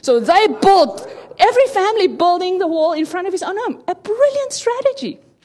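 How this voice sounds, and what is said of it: Noticeable accent, speaking fast. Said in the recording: “I'm going fast ... my accent, maybe you don't hear me so well”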